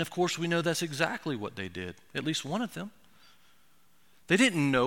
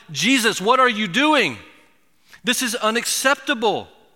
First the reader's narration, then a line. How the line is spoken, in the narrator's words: In great distress, they must have shouted